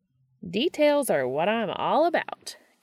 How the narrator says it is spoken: Gabriel said, cheerfully

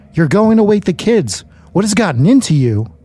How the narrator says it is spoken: My wife screamed

